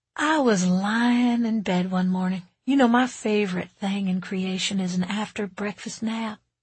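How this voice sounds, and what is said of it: Southern US lilt. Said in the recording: “spoke with a southern lilt.”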